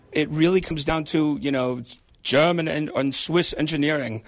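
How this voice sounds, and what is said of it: Put-on German or Swiss accent. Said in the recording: “That's terrible. I should not do foreign accents. ... I think his accent is pretty good.”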